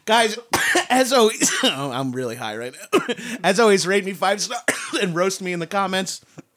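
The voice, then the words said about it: Long Island accent, stoned speech. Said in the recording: “it's barely English. It's arguably English ... because of my accent and how high I am right now ... Because you're from Long Island?”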